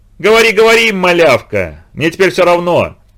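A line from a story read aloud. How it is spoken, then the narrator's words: Relieved joyful shout. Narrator (Russian): Испытывая огромное облегчение и радость, закричал Витька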